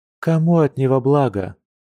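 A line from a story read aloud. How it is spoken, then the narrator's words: Sad question, she-bear. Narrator (Russian): грустно спросила медведица, вспоминая о той адской боли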